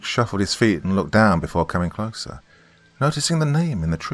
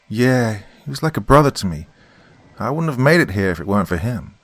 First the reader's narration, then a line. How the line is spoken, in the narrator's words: Tony sighed